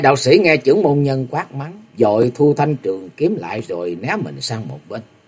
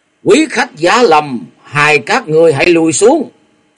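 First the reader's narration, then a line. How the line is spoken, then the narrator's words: Loud shout. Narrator (Vietnamese): quát to lên một tiếng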